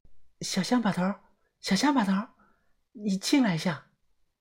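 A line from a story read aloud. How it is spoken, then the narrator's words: Soft call. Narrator (Chinese): 他在厕所里轻声的喊道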